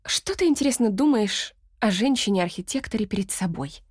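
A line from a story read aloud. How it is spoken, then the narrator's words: Plain. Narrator (Russian): спросила она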